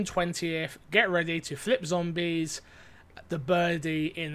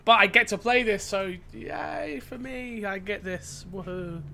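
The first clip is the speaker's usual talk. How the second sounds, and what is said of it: Sarcastic fake enthusiasm. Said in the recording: “hear the sarcasm in my voice”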